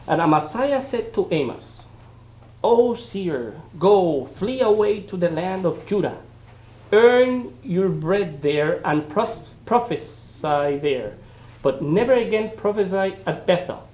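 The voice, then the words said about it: Strong accent. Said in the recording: “I have a strong accent”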